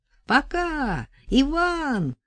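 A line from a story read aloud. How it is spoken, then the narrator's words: Shout from a little person. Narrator (Russian): закричал кто-то из лилипутов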